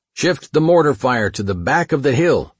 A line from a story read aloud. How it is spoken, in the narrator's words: I yelled to Neary